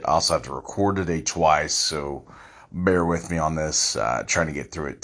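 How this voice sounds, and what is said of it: Slightly hoarse, fading voice. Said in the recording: “I am losing my voice a little bit.”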